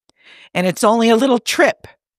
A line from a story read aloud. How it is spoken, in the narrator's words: Pike says sharply